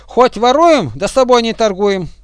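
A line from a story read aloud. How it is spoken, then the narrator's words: Shouting. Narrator (Russian): кричали первые вторым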